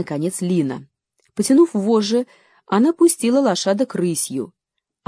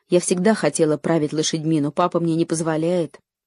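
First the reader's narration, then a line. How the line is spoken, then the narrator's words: Plain. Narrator (Russian): сказала Лора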